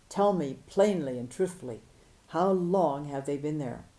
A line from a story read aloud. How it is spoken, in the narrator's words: thundered